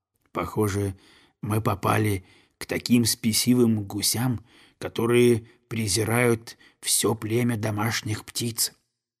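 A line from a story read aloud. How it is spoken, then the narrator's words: Quiet. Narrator (Russian): он тихо сказал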